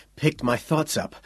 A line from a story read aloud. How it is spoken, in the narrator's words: Quayle said, panting for breath